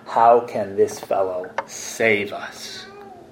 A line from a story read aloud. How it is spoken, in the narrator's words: other peoples scoffing